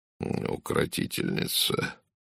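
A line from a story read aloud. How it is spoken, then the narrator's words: Muttering. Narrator (Russian): пробормотал доктор Жерар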